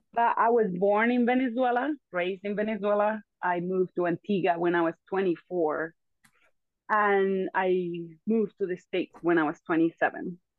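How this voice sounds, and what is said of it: Noticeable foreign accent in English. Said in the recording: “as you can hear, my friend has a beautiful accent ... So my accent just sticks with me.”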